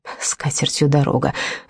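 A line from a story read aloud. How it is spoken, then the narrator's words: Gruff mutter. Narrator (Russian): буркнул Рамон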